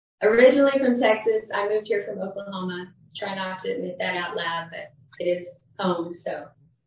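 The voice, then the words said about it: American Texan accent. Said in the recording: “you told us that you're American, right? ... you can probably tell by my accent. ... You're from Texas”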